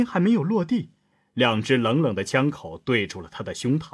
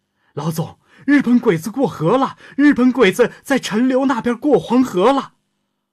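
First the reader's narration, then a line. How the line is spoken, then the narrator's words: Shouting. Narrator (Chinese): 天亮大喊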